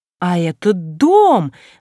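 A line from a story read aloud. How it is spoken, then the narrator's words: Very loud exclamation. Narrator (Russian): воскликнула она особенно громко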